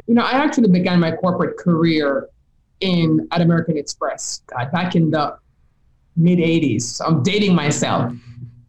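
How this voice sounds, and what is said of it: Jamaican Caribbean accent. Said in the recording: “If you can hear my accent, you'll know I'm from Jamaica, right? I'm from the Caribbean.”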